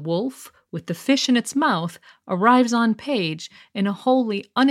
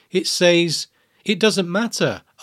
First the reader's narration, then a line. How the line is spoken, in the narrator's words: Arya said in a dull voice